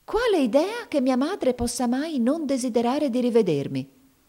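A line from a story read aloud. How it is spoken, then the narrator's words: Flushed, indignant exclamation. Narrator (Italian): esclamò Mamie, diventando di porpora in viso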